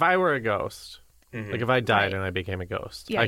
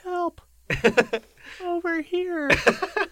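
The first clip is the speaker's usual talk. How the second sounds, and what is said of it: Little girl voice. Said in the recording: “give us your best little girl voice ... That's pretty good.”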